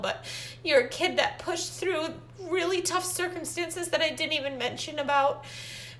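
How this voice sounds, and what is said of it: Emotional, choked-up voice. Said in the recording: “sorry, I'm getting emotional”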